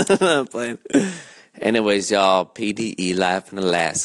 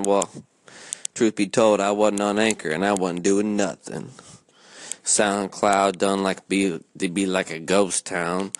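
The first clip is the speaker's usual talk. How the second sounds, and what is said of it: Put-on southern accent. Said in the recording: “I just went into a little southern accent”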